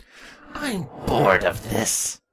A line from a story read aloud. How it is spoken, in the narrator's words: Twilight growled